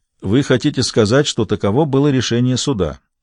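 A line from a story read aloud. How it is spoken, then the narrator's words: Even, level voice. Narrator (Russian): ровным голосом сказал Гамаш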